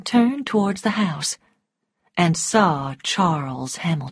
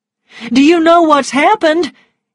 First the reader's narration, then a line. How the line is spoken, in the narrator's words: cried